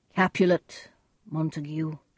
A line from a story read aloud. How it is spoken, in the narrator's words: the prince said sadly